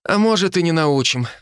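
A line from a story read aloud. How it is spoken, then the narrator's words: Sighing. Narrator (Russian): вздохнул Хинниган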